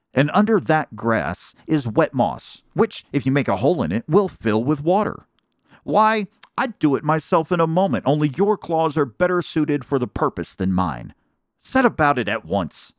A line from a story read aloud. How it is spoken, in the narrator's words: said sharply